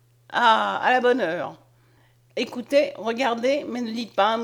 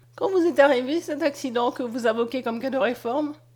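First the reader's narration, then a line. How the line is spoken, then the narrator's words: Sweetly mocking tone. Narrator (French): dit d'un ton doucereusement goguenard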